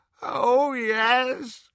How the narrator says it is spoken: moaned Creature

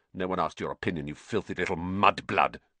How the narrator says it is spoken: spat

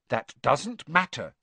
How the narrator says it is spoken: said Hermione firmly

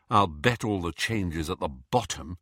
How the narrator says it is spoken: sighed Hermione

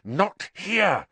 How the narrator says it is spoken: Harry hissed

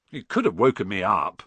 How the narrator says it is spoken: said Ron, crossly

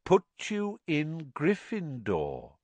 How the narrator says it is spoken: said Dumbledore calmly

